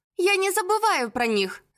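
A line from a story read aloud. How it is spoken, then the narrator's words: Thoughtful. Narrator (Russian): задумчиво проговорила Мирослава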